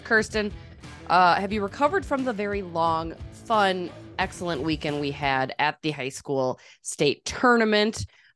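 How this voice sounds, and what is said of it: Slightly raspy voice. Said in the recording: “voice a little raspy today”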